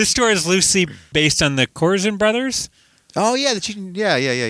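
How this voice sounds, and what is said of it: Usual voice. Nothing is said of it.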